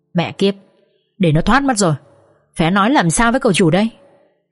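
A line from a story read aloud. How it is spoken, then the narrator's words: Gritted-teeth growl. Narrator (Vietnamese): Nghiến răng nghiến lợi, kho gằn giọng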